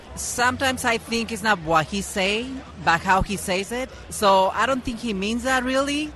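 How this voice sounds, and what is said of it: Slight Hispanic accent. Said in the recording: “You've got a little bit of an accent. Are you Hispanic? ... Mexico Americana.”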